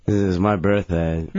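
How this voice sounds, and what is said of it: Mumbled, slurred speech. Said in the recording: “Why are you mumbling? Are you on Xanax or something?”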